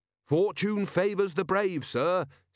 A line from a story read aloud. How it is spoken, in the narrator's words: said Carrot cheerfully